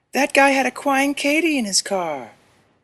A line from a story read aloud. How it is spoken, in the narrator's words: the girl whined